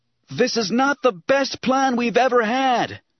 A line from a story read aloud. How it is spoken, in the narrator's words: he shouted